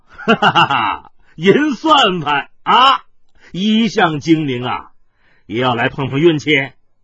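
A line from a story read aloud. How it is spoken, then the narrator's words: Laughing. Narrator (Chinese): 海大少笑道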